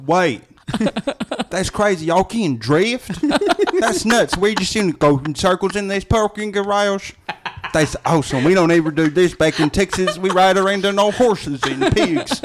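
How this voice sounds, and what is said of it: Imitates another person's voice. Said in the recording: “do your Lucas Black impression.”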